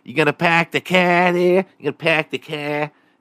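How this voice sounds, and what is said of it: Mock Boston accent, dropped R's. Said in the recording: “If you go to Boston, everyone fucking talks like that... pronounce your R's, Boston. Such an awful accent”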